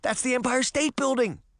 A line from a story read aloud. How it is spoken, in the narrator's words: she cried